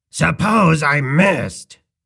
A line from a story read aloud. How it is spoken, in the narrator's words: he cried in sudden alarm